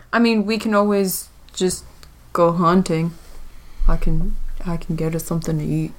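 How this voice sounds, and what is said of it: Deep male character voice. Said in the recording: “Do you like my character voice? This is like my deep man voice.”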